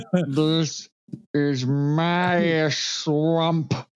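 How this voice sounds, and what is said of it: Deep voice spoken from the jaw. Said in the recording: “doing your Alan Rickman impersonation, it sounds like you're talking from like your jaw.”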